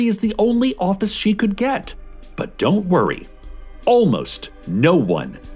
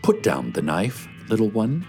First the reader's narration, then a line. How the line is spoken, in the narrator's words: he says in a gentle voice